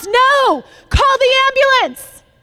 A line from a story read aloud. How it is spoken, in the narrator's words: somebody else yelled in response